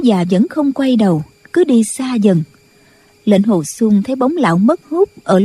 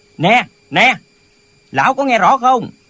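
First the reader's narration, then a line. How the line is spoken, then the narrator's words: Loud calling. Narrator (Vietnamese): Lệnh Hồ Xung liền lớn tiếng gọi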